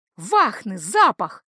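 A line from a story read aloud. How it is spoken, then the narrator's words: Exclaiming. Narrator (Russian): воскликнул Шерши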